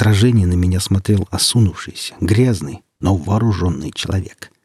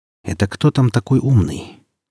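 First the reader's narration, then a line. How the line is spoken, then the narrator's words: Quiet question. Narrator (Russian): тихо спросил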